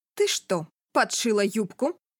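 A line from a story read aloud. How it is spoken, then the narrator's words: Menacingly low tone. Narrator (Russian): Угрожающе низким тоном спрашивает мама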